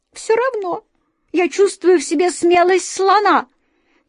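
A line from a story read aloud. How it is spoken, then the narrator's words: Mouse squeaking. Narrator (Russian): пискнула серая мышь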